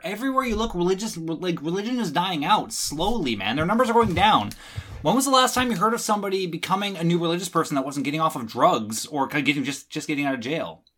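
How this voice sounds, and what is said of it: Speaking very fast. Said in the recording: “Slow down. ... I'm talking too fast.”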